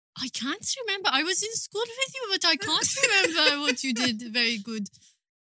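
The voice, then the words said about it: Speaks English with an accent. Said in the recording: “It's with the accent. It comes with a package.”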